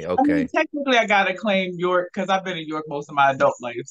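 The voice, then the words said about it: Baltimore accent. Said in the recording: “I do hear the accent. So are you from Baltimore originally?”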